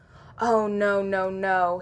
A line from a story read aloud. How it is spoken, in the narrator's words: he groans